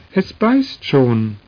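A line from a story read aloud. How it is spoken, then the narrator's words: Excited group shouting. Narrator (German): riefen sie aufgeregt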